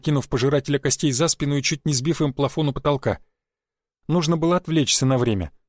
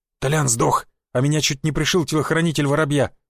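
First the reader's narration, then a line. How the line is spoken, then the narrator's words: Forced out, strained. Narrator (Russian): выдавил Сикач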